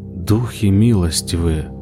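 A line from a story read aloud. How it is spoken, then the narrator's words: Whisper. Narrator (Russian): прошептал кузнец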